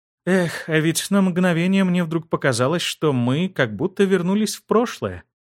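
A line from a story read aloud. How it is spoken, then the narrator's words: Sad sigh. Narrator (Russian): грустно вздохнув, произнесла Астрид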